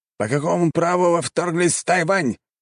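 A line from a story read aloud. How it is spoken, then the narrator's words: Angry shout. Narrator (Russian): сердито прокричал командующий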